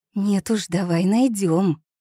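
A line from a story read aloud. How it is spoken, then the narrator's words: Hissing. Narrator (Russian): зашипела Тилли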